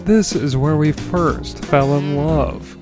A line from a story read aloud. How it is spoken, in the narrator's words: Arnold pleaded